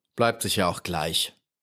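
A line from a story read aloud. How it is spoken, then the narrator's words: Gruff rascal grumble. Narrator (German): brummte der Strolch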